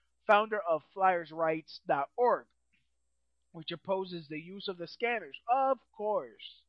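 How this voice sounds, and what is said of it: Usual voice. Nothing is said of it.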